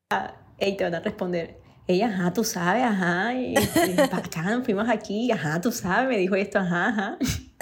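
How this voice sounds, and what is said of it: Colombian coastal costeño accent. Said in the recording (Spanish): “soy de Barranquilla ... costeña ... me encanta el acento costeño”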